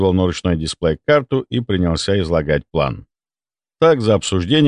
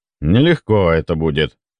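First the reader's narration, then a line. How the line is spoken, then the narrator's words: Sigh. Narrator (Russian): вздохнул Федор Иванович, видимо, вспомнив о той дряни, что сбила дрона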